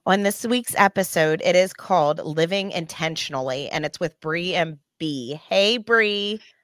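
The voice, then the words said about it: Hoarse, froggy voice after illness. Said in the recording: “my voice sounds the way it does because we had the flu last week. ... I have a little bit of a cough ... the frog in my voice”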